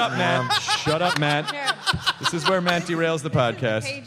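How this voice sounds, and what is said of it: Usual voice. Nothing is said of it.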